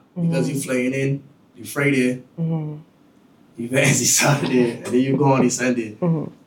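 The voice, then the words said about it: Bajan accent. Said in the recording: “the Bajan accent is really hard to understand”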